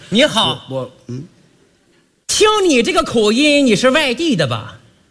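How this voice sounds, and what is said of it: Put-on Tangshan accent. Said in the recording (Chinese): “刚才说话怎么这味儿？... 唐山口音”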